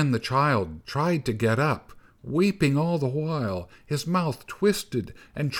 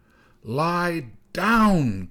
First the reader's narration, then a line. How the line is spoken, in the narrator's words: cried the snow boy